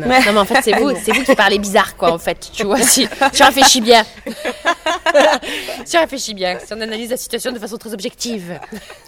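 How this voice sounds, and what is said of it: Southern French accent. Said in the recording (French): “On a étudié à Marseille, mais c'est vrai que moi j'habite à Toulouse. On a l'accent du sud”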